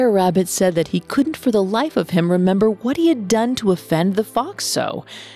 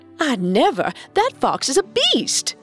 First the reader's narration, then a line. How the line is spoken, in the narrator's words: they exclaimed